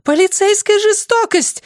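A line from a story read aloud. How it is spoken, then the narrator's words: Screaming. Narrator (Russian): завопила Сэмми Буш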